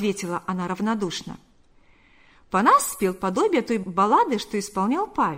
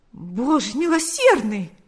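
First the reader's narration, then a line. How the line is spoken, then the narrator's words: Forced playful exclamation through pain. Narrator (Russian): воскликнул он после короткого молчания, стараясь говорить игривым голосом, хотя на глаза от боли наворачивались слезы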